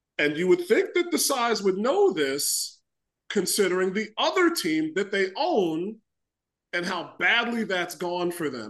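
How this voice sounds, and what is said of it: Raised, annoyed voice. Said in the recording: “I know I'm raising my voice, ... I'm still annoyed”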